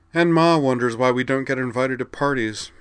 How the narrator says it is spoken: Ryoko giggled

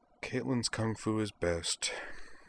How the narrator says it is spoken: said Jury in a small, beaten voice

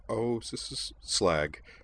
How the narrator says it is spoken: muttered Kate

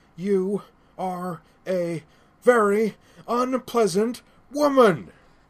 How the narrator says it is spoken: Starfire yelled, punctuating each word with another blow

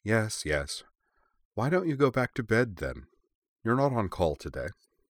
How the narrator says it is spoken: With an indulgent smile, Ursula replied

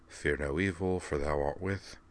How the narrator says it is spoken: Devlin could be heard muttering

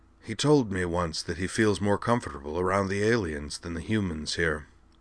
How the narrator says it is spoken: Jacron adding in a soft, sympathetic voice

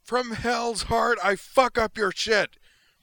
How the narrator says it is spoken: The DG's pilot bellowed furiously, his rage unwittingly transmitted by the PA to everyone within half a mile

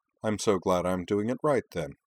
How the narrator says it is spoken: replied Utna dryly

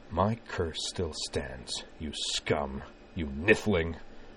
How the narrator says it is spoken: Corwin spat in a voice of cold but barely contained wrath

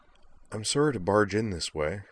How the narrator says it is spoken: said the redhead in a slightly apologetic tone

